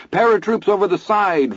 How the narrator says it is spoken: Vern bawled

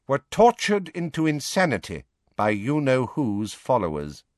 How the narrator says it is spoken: she said, turning haughtily

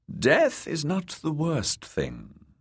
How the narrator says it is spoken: the kindly man replied

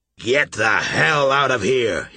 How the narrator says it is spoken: roared

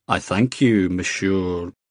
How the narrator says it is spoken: Jamie said slowly

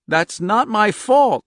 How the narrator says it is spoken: she cried

